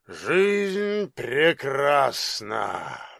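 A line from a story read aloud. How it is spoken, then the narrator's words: Inspired mutter. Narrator (Russian): воодушевленно пробормотал он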